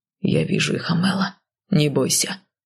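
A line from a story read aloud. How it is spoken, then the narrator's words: Husband's even voice. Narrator (Russian): ровным голосом произнес супруг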